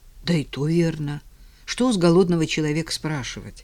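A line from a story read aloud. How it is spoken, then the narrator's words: Heavy sigh. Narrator (Russian): Федор Гаврилович тяжко вздохнул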